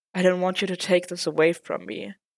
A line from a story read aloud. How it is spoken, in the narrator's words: Matt admitted with a sigh